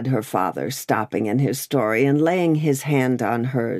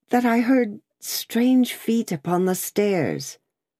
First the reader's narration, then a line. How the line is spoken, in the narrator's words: said Lucy, excusing herself with a pale face and in a faltering voice